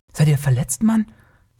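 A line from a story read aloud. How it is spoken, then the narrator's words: Astonished gasp. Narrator (German): keuchte Taurus, noch immer verblüfft über die beeindruckende Schnelligkeit der riskanten Szene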